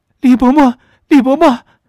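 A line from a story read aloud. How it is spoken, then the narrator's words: Exhausted, tearful boy. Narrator (Chinese): 那少年自己却也力竭，语音里带着哭腔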